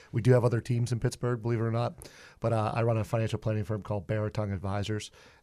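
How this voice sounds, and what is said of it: Thick Pittsburgh accent. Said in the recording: “If I have a thick accent, I apologize for that, and what we call yinzer out in Pittsburgh”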